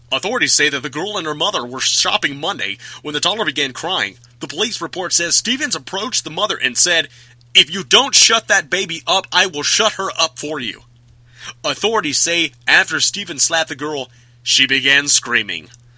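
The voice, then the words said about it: News reporter voice. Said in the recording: “put on my reporter voice.”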